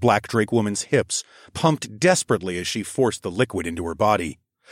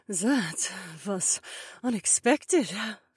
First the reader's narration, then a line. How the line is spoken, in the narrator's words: Cecilia murmured